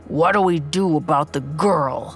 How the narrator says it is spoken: the man growled

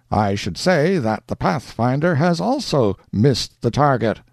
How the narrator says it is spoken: cried Major Duncan

